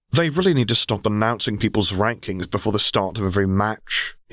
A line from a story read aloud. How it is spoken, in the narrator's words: he grumbled